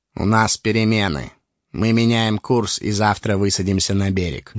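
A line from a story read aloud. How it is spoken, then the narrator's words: Gloomy. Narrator (Russian): мрачно сообщил Ларт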